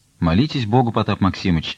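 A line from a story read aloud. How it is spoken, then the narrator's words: Plain. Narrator (Russian): сказал Андрей Богданович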